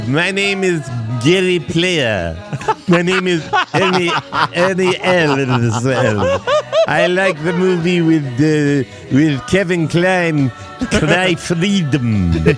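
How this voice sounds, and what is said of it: Put-on South African accent. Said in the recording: “I've always been fascinated with the South African accent”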